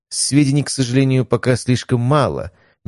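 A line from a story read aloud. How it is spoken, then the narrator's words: Slightly sad. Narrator (Russian): немного грустно известил глава рода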